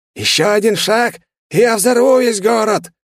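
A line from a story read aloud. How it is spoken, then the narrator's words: Hysterical shout. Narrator (Russian): С истеричными нотками в голосе выкрикнул он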